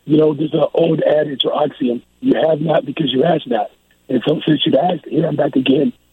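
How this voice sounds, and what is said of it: Hoarse, strained voice. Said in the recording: “I'm losing my voice a little bit, but it's starting to come back”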